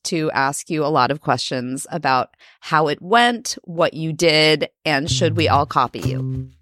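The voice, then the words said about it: Congested, sick-sounding voice. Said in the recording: “I was getting a cold. I'm sure you can hear that in my voice.”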